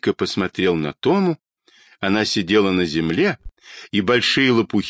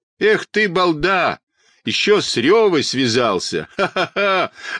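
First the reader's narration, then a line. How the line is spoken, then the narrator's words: Mocking laughter. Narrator (Russian): захохотал противный мальчишка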